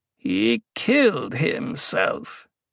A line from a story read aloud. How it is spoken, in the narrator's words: the Reverend Mother growled